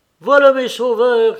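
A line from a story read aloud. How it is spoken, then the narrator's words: Shouted. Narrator (French): cria Petritsky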